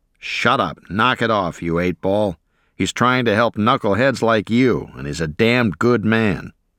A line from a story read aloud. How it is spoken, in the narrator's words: Our NCO growled